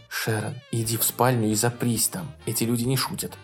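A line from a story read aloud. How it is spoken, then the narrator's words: Whisper. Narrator (Russian): прошептал он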